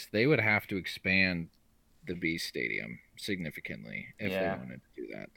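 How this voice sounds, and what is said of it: Hoarse, fading voice. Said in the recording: “I'm totally losing my voice.”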